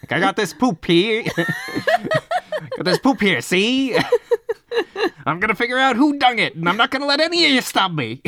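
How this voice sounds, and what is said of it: Hard-boiled 1930s detective accent. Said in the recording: “hat, trench coat, hard-boiled accent from the 30s”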